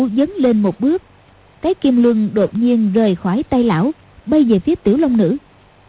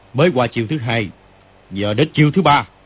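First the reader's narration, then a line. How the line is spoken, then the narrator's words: Shout. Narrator (Vietnamese): Kim Luân Pháp Dương quát lên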